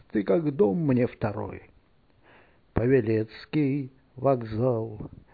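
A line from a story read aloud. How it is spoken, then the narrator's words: Quiet. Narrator (Russian): Кто-то тихо сказал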